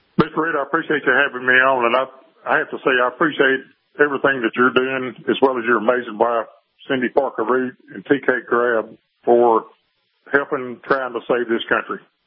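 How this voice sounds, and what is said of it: Texas twang accent. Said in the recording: “you've got that Texas twang”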